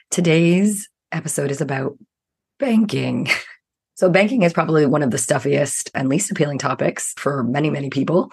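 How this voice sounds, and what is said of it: Rough, hoarse voice. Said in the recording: “You're going to hear on the episode today that my voice is rough”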